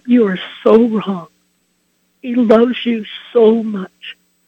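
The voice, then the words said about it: Choked-up, emotional voice. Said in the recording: “It almost brings me to tears ... I'm getting choked up.”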